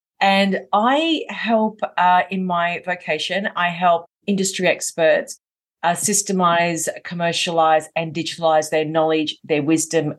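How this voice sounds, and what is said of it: Australian accent. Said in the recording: “I'm from Melbourne in Australia, hence why I have the accent.”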